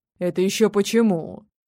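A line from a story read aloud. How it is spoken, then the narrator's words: Furious growl. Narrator (Russian): прорычал, не пытаясь унять яростных ноток, которыми изобиловал голос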